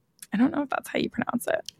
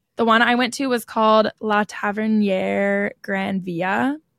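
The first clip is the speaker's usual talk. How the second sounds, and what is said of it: French-sounding pronunciation of a name. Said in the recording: “That was pretty good. Sounded a little French instead of Spanish”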